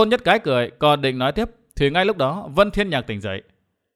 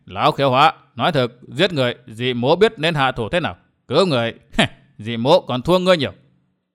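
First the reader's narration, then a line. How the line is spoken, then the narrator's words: Laughing loudly. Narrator (Vietnamese): Ta Kiếm cười lớn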